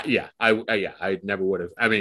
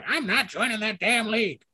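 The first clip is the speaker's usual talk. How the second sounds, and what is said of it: Imitates another person's voice. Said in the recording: “that impression you just made”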